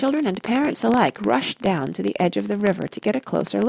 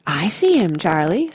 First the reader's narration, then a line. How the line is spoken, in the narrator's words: said Grandpa Joe excitedly